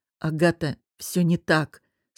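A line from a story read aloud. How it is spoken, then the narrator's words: Growled through teeth. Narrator (Russian): сквозь зубы прорычал Костя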